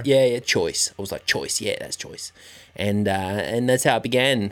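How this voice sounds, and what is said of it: Put-on Australian accent. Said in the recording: “I've been there as an Australian ... your accent.”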